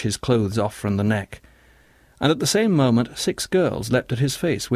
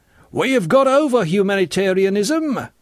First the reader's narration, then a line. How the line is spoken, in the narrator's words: bellowed one of the bearded men